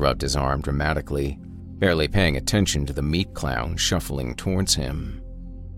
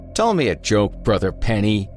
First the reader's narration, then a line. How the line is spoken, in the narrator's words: he bellowed